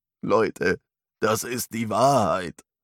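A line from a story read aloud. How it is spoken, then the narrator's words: Old man crying out, sobbing. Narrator (German): Der alte Mann schrie auf, schluchzte untröstlich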